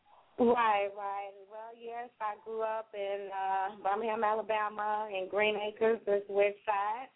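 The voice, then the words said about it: Southern Alabama accent. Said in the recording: “you was born in Birmingham, Alabama, right? I could tell by your accent.”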